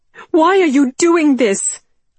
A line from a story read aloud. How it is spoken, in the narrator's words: I shouted now, ready at last, feeling the rage course through my veins